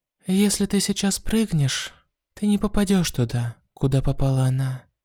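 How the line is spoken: Calm. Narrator (Russian): спокойно сказал

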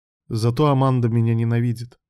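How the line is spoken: Wry snort. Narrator (Russian): хмыкнул Илья

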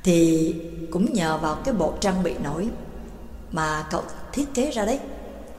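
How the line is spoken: Smiling. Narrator (Vietnamese): Pháp sư Tháp Tây mỉm cười nói

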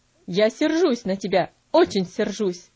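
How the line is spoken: Stern tone. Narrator (Russian): ответил он тем же суровым тоном

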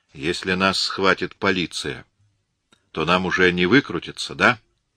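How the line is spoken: Plain question. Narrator (Russian): спросил Мак-Адамс

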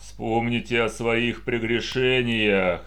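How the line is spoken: Roaring group. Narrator (Russian): проревели фиолетовые

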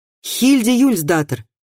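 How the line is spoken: Loud. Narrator (Russian): громко сказал он

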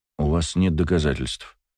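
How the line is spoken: Calm male voice. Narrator (Russian): спокойно произнес мужчина

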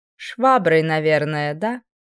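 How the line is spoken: Honeyed, unctuous voice. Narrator (Russian): Елейным голосом поинтересовалась эта чудесная женщина

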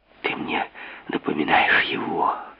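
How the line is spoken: Hot intimate whisper. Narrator (Russian): жарко прошептала Анечка, склонившись над ним

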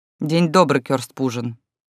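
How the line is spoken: Dry reply. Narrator (Russian): сухо ответила я

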